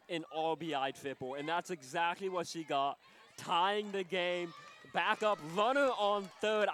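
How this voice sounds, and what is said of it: Excited, energized speaking voice. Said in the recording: “I'm sure you can hear it in my voice. I'm excited.”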